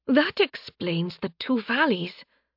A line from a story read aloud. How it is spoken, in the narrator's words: Seraph muttered